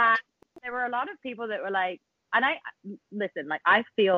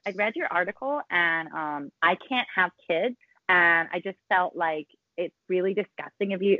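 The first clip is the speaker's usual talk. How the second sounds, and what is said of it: Fake Californian American accent. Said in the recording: “I don't know why I went into a fake American. ... You sounded accent. Californian for a second.”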